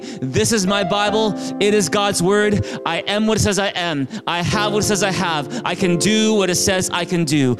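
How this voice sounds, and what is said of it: Loud group recitation. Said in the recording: “in a big loud voice.”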